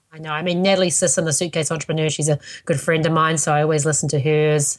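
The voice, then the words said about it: New Zealand accent. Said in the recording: “that Kiwi accent that we have”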